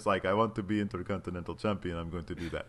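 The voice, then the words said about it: Cesaro impression, Dracula-like accent. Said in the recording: “That's my Cesaro accent. ... You sound like Dracula.”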